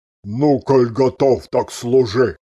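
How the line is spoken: Smoky rumbling bass. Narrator (Russian): прогудел прокуренным басом

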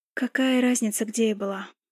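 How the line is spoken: Tired reply. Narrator (Russian): устало ответила я

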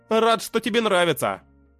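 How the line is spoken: Smirking grunt. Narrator (Russian): хмыкнул я

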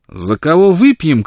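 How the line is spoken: Shouted. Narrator (Russian): крикнула Бланш

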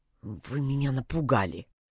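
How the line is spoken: Trembling voice. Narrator (Russian): дрожащим голосом произнес

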